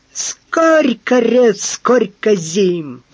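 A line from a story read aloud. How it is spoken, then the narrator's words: Hissing valet. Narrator (Russian): прошипел фондоринский камердинер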